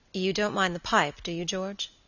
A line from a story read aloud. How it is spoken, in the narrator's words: his friend asked quietly